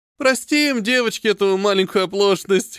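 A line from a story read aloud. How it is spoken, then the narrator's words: Chuckling. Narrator (Russian): хохотнул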